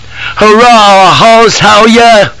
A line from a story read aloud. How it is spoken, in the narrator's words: cries this apparition